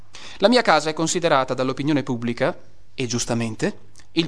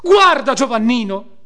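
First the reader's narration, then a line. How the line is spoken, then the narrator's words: Exclamation. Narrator (Italian): esclamò Margherita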